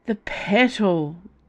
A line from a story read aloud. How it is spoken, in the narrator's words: Dio moaned